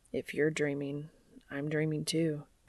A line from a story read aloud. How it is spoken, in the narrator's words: Dean murmurs